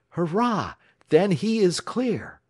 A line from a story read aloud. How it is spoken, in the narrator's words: cried Alex joyously